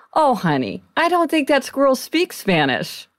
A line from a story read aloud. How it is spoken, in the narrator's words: he said kindly to the girl